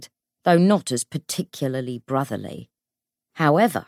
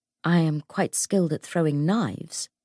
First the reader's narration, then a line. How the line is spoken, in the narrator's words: James said calmly